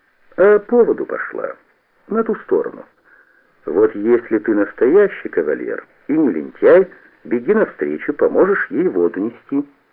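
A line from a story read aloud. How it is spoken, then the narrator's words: Calm. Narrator (Russian): Кушнир спокойно сказал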